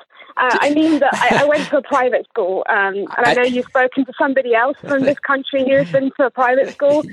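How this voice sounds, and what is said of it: Posh English accent. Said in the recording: “I sounded very pretentious ... I really don't like my accent”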